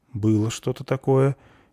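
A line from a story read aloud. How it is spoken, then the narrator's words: Uncertain agreement. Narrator (Russian): неуверенно согласился лодочник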